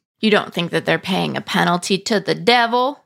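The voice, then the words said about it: Evangelist preacher voice impression. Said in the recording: “my best evangelist impression. I don't think it's very good.”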